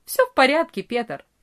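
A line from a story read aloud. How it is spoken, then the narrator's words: Cheerful reply. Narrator (Russian): весело ответил Франц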